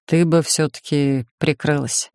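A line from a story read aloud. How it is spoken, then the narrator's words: Uncertain sighing speech. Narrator (Russian): вздохнул, неуверенно произнес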